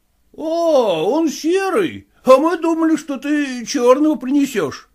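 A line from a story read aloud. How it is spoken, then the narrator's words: Exclaiming clerks. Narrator (Russian): воскликнули приказчики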